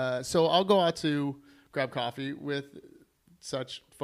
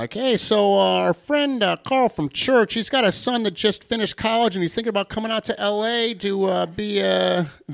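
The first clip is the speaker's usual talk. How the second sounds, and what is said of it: Generic older dad voice. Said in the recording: “This is not my dad's accent, by the way... it's just a dad. Like. It's like an older dad.”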